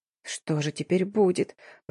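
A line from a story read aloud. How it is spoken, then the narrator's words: Whimpering. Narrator (Russian): проскулила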